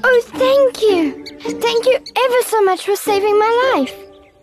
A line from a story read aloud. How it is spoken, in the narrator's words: it said in a squeaky little voice